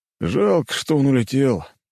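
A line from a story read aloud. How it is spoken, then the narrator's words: Officer's sigh. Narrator (Russian): вздохнул один из офицеров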